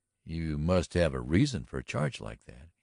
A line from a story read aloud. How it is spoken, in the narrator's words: he remarked evenly